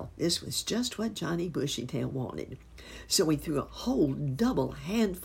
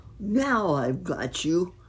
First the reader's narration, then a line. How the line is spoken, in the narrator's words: cried